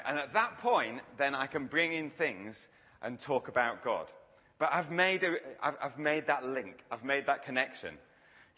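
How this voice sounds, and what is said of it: Yorkshire English accent. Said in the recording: “if I didn't have a Yorkshire accent”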